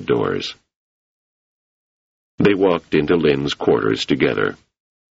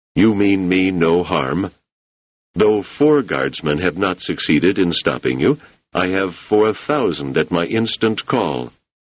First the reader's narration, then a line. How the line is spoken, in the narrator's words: He said calmly